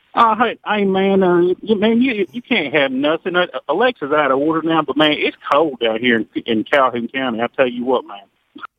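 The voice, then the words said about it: Put-on Southern good old boy voice. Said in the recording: “you got a good old boy ... You're doing the voice.”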